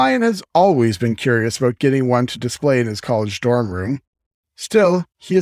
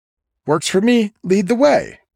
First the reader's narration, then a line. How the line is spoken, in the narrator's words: Sammy exclaims